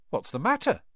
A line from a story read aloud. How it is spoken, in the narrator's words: said Harry